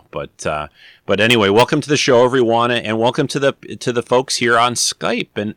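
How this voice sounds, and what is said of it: Slightly rough, gravelly voice. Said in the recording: “my voice is a little grovelly. I've had this stupid cold since after Christmas”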